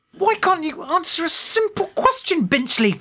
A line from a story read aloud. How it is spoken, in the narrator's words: She spat